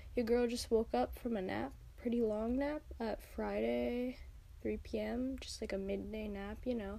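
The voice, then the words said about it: Croaky, tired, groggy voice. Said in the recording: “my voice sounds a bit croaky, a little bit tired ... I'm still a little bit, you know, groggy”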